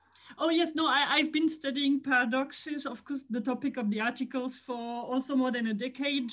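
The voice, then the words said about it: French accent in English. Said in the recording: “From my accent, you hear that I'm from France.”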